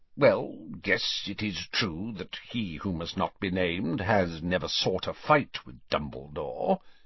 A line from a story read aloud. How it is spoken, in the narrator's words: he muttered grudgingly